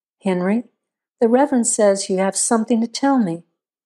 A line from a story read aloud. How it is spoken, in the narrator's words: said calmly